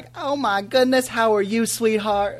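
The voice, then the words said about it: Put-on Southern accent. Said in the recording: “I don't know why I give her a southern accent there, but it just sounds like she should have one.”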